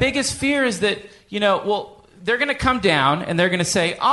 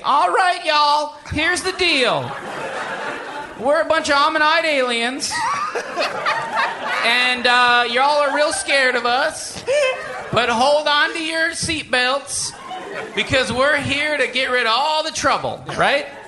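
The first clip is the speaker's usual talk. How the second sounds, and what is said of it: Folksy put-on Southern accent. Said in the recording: “they sound nice ... folksy ... Southern accent”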